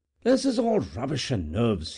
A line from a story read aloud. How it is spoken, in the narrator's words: he exclaimed at length